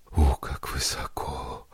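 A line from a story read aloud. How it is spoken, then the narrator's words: Weak trembling voice. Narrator (Russian): произнесла она ослабевшим и вздрагивающим голосом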